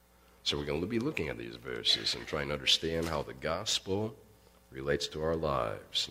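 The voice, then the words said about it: Deep, husky late-night radio voice. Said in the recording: “my voice sounds a little bit different today. I sound like a jazz type DJ at 12 o'clock at night”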